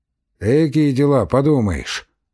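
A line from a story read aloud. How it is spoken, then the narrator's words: Sighing. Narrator (Russian): вздохнул Пантелей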